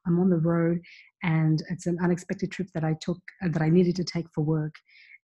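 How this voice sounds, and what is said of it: Quiet, whispered low-volume speech. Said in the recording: “I'm whispering a bit ... speaking lower than my usual volume”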